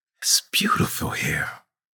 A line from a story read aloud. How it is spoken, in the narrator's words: she whispered